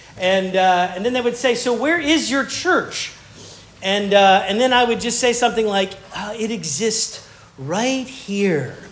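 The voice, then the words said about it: Southern American accent. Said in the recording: “we heard you're a pastor from the South. We can clearly hear that in your accent.”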